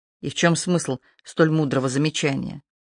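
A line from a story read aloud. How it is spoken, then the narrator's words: Low, friendly advising tone. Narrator (Russian): вполголоса принялся ее поучать, желая придать своим словам тон дружеского совета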